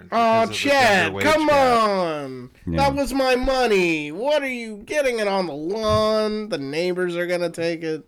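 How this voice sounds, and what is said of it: Impression of an 80s movie character. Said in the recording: “that impression ... 80s, the Burbs ... Hanks.”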